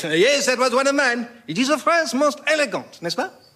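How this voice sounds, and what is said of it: Outrageous put-on French accent. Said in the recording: “a man whose accent is, if anything, even more outrageous than our own ... the outrageous French accent”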